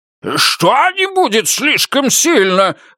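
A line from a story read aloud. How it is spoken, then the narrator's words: Shrill squeal. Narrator (Russian): взвизгнул святой Матфей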